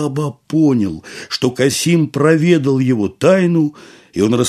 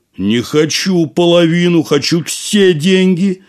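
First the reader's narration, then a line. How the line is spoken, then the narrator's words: Shouting. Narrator (Russian): закричал Касим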